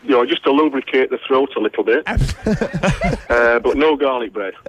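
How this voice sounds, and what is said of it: Yorkshire accent. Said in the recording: “what is that accent we're hearing? ... Yorkshire.”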